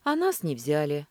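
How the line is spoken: Heavy sigh. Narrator (Russian): Ковальчук тяжело вздохнул

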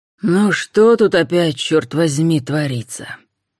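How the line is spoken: Menacing. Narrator (Russian): грозно произнес человек

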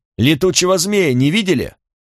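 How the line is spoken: Fearful shout. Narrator (Russian): Я ужасно боялся за Рагнара и Бридду, прокричал

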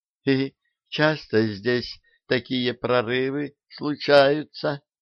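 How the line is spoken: Timid question. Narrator (Russian): робко спросила Демельза

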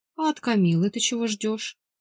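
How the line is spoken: Father's ingratiating tone. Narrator (Russian): вкрадчиво продолжил отец

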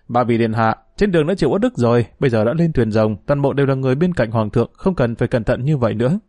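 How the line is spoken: Smiling. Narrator (Vietnamese): Dương Lăng dẫn ba vị công chúa đi trên khoang thuyền rộng rãi vững chãi, mỉm cười nói

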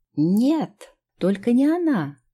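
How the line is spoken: Bride's melodic exclamation. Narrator (Russian): воскликнула невеста с мелодичным голоском

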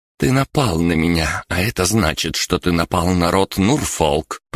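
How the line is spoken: Through gritted teeth. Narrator (Russian): процедила Бригитта

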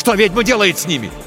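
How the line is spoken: Shouted. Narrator (Russian): крикнул Тихон

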